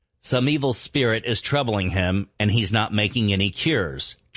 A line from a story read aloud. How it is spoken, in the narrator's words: tribal members said